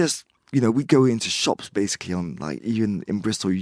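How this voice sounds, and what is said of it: Usual voice. Nothing is said of it.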